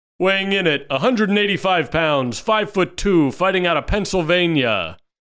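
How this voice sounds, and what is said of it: Ring announcer voice, Kermit-like. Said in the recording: “can I do the voice? ... It's a little too much Kermit in that.”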